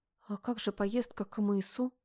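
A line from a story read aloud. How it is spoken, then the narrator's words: Timid. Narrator (Russian): робко напомнила я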